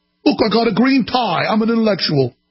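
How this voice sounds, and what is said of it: Poor John Oliver impression, English accent. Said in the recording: “My imitation of him is not very good ... low-class English accent ... he's got the accent of a guy that'll steal your watch when you're in downtown London”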